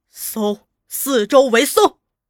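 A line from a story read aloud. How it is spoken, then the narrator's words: Shouting. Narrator (Chinese): 吴启超高叫道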